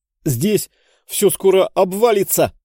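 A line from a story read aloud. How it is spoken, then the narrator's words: Shout. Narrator (Russian): крикнул гипербореец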